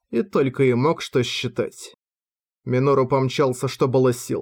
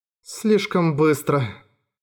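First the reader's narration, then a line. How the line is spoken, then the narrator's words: Casual remark. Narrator (Russian): обронил Минору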